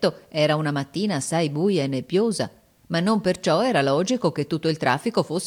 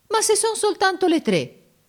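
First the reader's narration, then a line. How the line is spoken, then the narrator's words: Offended exclamation. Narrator (Italian): esclamò Giorgio in tono d'offesa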